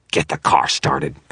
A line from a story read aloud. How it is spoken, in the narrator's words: Victor snarled